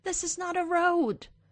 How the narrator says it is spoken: he hears Erica yelling

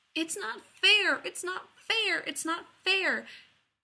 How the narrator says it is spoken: in his tiny, broken voice for a day straight

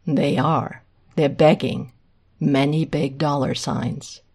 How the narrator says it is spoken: Hayden says flatly

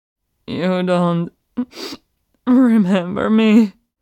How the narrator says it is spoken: The demon emperor gasps through sobs

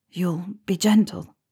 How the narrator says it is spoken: Harry whispered

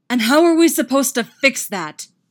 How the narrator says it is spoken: Derek roars right in his face

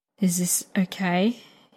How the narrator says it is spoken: he murmurs

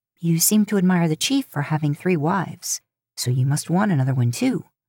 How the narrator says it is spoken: she says

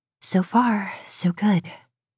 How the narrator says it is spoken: she whispers

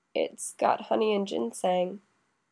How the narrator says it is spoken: Toya says faintly

